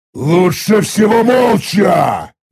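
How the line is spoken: Irritated growl. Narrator (Russian): раздраженно рыкнул я

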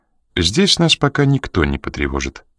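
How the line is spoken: Calm. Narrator (Russian): спокойно проговорила она

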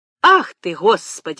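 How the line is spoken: Exclamation. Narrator (Russian): воскликнула

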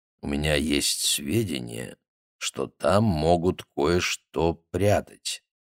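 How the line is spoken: Quiet. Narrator (Russian): тихо произнес

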